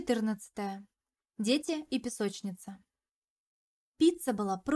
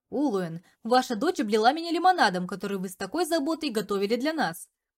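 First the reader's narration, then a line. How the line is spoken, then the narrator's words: Loud laughing. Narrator (Russian): Громко смеялся Дариуш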